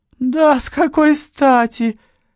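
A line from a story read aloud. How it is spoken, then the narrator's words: Exclaimed. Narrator (Russian): воскликнула красотка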